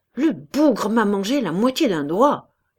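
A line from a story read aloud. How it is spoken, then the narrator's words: Growling in pain. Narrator (French): gronda Cabas, dont la main saignait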